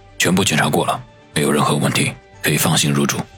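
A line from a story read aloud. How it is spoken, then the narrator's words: Whisper in ear. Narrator (Chinese): 黑墨镜在他的耳边低声的说道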